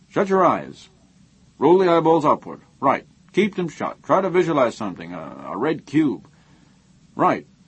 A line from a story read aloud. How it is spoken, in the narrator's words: Haber said sharply